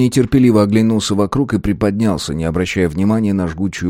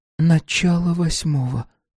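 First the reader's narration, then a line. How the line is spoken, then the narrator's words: Whisper. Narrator (Russian): прошептала она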